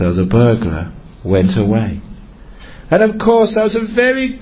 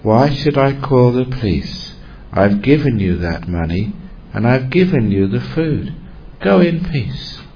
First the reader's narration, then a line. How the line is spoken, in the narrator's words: And the abbot said very softly